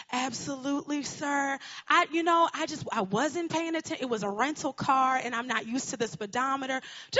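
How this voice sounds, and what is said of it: Thick put-on Southern accent. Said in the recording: “I'm putting on this really thick Southern accent. I am from Connecticut”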